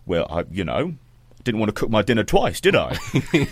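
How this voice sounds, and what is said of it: Put-on accent in quoted line. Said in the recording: “I like that you've done the accent there”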